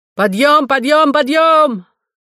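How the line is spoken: Shout moving along corridor. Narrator (Russian): Кто-то шел по коридору и кричал

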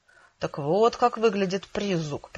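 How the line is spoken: Muttered. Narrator (Russian): пробормотал Джек

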